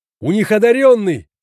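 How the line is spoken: Shouted. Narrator (Russian): крикнул енот

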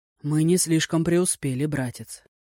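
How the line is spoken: Dejected. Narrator (Russian): уныло проговорил Дзяо Тай

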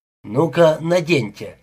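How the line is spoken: Grumbling tone. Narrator (Russian): сказал ворчливым тоном

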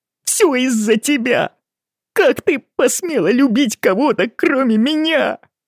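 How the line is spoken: Sobbing. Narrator (Russian): Алан зарыдал

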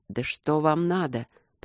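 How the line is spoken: Weak wheeze. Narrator (Russian): прохрипел не в силах подняться

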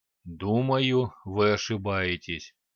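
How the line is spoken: Deep bass voice. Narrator (Russian): густым басом заговорил гном

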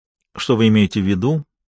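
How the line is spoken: Cold question. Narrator (Russian): холодно уточнила Мария

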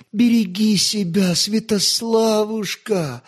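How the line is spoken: Sobbing. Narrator (Russian): сквозь всхлипывание проронила она

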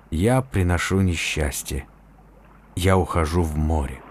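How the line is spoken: Quiet. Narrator (Russian): он тихо сказал

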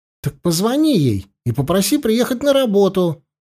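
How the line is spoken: Barked. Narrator (Russian): рявкнул Полянский

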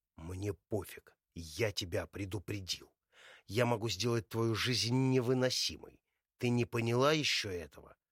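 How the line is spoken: Growled through teeth. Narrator (Russian): рычит сквозь зубы

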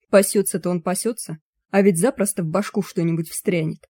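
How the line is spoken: Grumble. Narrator (Russian): проворчал Януш

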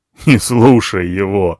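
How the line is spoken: Laughing elephant. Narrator (Russian): рассмеялся слон

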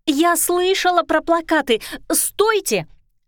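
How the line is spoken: Shouting while rushing. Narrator (Russian): закричала Лера, бросаясь следом

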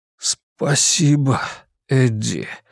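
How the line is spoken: Forced out reluctantly. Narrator (Russian): наконец выдавил из себя

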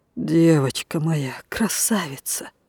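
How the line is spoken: Restrained emotional whisper. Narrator (Russian): Он еще что-то шептал для нее, а сам пытался не сорваться

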